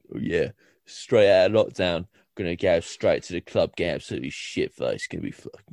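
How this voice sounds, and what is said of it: Deep put-on Essex accent. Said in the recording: “Is that your club voice? ... in like an Essex accent ... That's my manly voice ... It has to be like deep.”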